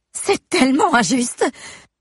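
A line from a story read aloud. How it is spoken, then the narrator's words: Exclaiming. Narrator (French): s'écrie Amber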